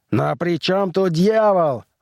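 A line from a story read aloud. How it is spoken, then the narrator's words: Roaring. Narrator (Russian): взревел все тот же человек со звездами на плечах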